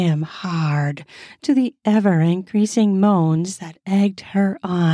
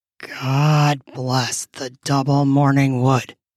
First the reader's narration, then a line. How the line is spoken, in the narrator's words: he said hoarsely